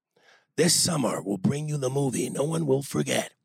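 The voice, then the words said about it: Movie trailer narrator voice. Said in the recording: “I'm hoping you have a decent narrator voice. You bet I do. ... it's to be set up as a trailer for a new movie”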